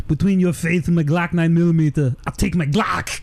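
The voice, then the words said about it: Arnold impression. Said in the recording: “Arnold drops his line ... That was a really good impression.”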